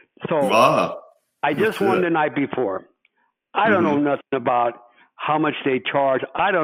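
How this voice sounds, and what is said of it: Usual voice. Nothing is said of it.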